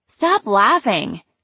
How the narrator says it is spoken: I called out to her

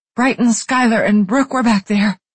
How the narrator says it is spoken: she wheezed out, panicked

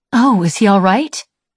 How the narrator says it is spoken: She asked anxiously

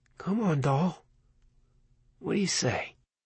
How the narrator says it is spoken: He murmured under his breath

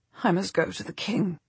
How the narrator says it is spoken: she says, her voice weak and croaky

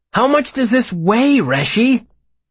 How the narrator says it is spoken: Bast exclaimed, looking rather exasperated

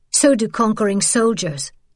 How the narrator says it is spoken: Isabel snapped

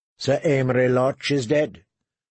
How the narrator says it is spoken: Tyrion said flatly

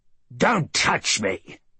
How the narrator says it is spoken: he spat

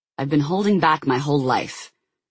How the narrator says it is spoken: Jason snarled

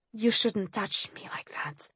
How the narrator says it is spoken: I whispered

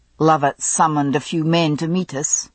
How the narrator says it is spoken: Jamie observed grimly

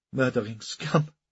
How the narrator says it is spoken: spat the assassin

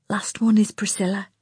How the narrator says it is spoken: Lana whispered

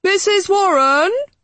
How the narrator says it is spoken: he called, his voice echoing along the passageway

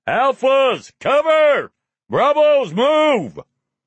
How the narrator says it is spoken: Lane bellowed above the gunfire

